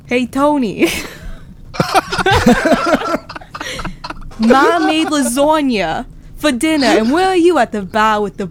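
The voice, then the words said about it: Put-on New Jersey accent. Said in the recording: “I got Jersey. ... let's just start in Jersey.”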